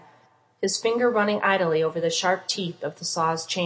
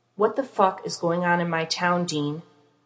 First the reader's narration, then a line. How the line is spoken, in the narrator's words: voice growled, violence more than threat